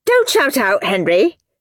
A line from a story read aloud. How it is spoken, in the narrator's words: snapped Miss Battleaxe